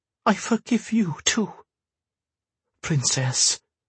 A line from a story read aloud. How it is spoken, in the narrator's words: he was pleading now